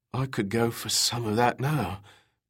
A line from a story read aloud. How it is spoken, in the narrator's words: Peter Smythe managed to mumble